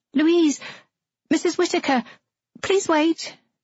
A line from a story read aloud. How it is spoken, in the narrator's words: the girl cried out